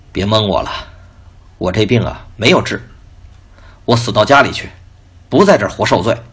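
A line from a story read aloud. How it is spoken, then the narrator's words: Bitter sad smile. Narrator (Chinese): 父亲惨然一笑说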